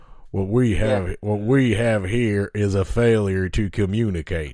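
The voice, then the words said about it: Attempted Southern American accent. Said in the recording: “I was trying to do a sort of Southern American accent.”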